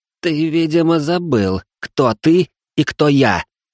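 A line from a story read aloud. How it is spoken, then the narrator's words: Hissed through teeth, judge. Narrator (Russian): прошипел сквозь зубы судья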